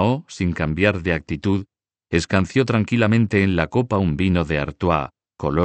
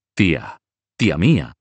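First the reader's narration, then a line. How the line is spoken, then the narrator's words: Exclamation. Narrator (Spanish): exclamó Roberto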